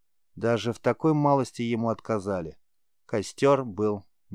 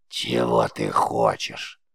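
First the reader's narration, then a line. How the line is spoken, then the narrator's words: Creaky witch's voice. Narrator (Russian): привычным для Риза скрипучим голосом спросила ведьма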